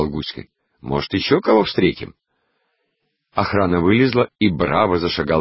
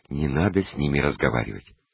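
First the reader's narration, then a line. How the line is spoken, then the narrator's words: Dry, in French. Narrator (Russian): Я сухо ответила и сказала по-французски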